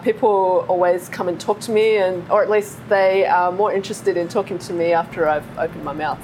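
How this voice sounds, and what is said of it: Australian accent. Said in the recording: “coming from Australia ... my accent”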